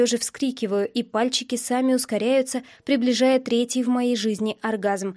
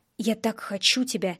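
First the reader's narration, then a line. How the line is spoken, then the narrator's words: Growled through clenched teeth. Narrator (Russian): рычит он сквозь стиснутые зубы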